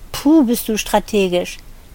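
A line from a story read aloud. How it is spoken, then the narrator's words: Moaned. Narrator (German): sie stöhnte dieses Wort nur noch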